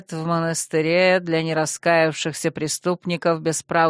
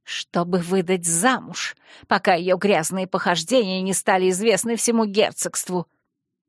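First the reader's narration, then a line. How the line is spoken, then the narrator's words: Stubborn, through teeth. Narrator (Russian): неуступчиво процедила Джана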